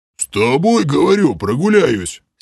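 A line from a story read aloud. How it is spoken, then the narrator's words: Puzzled deep bass. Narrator (Russian): С недоумения пробасил Грим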